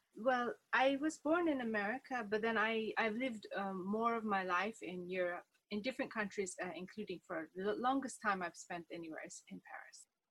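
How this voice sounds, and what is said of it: Mixed American and European accent. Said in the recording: “I'm trying to locate your accent... I think it's all mixed up because I lived in Ireland, a little bit in England... Italy and America, of course, the different areas”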